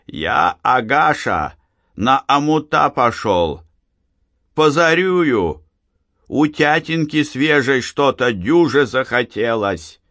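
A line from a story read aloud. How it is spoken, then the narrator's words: Deliberately loud speech. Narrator (Russian): дед Фишка сказал сестре нарочно громко, чтобы слышала глуховатая Анфиса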